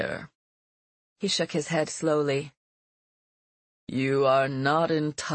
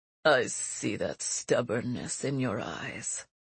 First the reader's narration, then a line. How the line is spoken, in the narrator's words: he said in a low, cruel voice